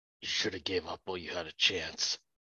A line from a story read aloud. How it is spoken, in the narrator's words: say quietly enough